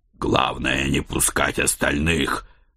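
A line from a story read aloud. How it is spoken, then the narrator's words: Growling. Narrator (Russian): прорычал я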